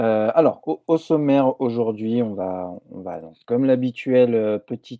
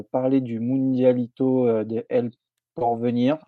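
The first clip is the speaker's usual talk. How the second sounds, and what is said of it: Put-on Spanish accent. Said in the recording (French): “j'ai un accent espagnol qui est, incroyable”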